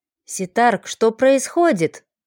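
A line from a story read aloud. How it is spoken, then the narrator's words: Whispered question. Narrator (Russian): шепотом поинтересовался Ройк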